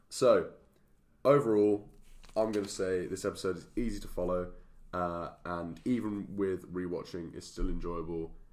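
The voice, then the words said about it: Hoarse voice. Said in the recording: “me with my like hoarse voice”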